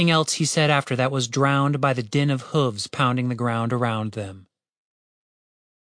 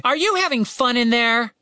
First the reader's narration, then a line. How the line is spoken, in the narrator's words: Tim continued shouting